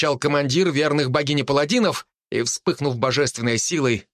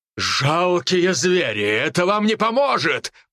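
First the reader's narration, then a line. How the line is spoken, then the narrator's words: Demonic growl. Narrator (Russian): прорычал лорд демонов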